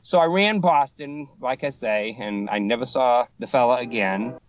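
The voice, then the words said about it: Boston accent. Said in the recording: “he was listening to my Boston accent ... thought you were from here in Mass. I said, no, just my accent.”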